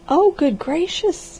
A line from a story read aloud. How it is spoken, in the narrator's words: she cried